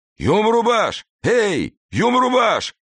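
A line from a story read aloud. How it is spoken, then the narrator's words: Powerful voice yelling nearby. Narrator (Russian): орал где-то неподалеку мощный голос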